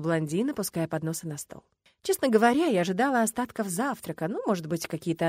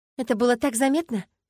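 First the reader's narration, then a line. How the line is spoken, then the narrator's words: Choked question, lump in throat. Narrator (Russian): спросила я, с трудом проглотив еду, резко вставшую комом в глотке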